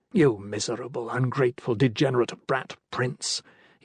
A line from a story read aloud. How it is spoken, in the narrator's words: was muttering